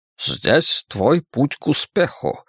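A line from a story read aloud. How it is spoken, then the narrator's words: Plain. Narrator (Russian): сказал Фриц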